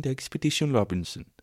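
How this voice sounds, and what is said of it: Mock Swedish or Dutch accent. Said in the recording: “Is that the Swedish accent? Is that the Swedish accent? ... It seems to be Dutch, doesn't it?”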